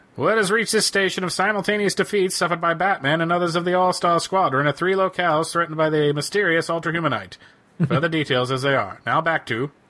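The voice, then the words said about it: Old-time radio announcer voice. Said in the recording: “I wanted to bring back my radio voice.”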